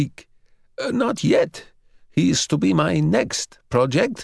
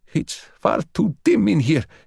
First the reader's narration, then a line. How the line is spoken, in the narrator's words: he gasped